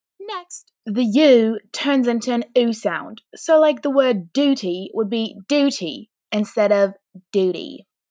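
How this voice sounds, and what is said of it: British accent. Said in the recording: “a British accent just like mine”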